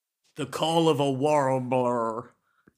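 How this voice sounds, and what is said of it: Put-on accent. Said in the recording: “It's hard in this accent.”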